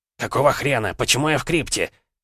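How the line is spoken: Angry barking shout. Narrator (Russian): Зло гаркнул барон

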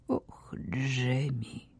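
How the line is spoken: Quiet countess. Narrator (Russian): тихо отвечала графиня

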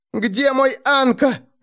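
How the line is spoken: Shouting while struggling. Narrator (Russian): закричала Кайя, вырываясь

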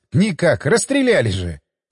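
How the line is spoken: Laughing. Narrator (Russian): засмеялся я

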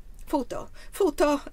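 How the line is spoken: Woman exclaiming disapprovingly. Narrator (Italian): esclamò la donna con riprovazione

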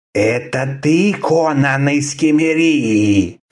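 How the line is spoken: Hissing reptilian voice. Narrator (Russian): спросил человек-ящерица шипящим голосом

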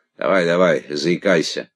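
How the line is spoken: Mocking encouragement. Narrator (Russian): Насмешливо подбодрил меня Косеваги

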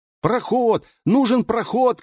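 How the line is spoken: Shouting. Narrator (Russian): кричал Ирин

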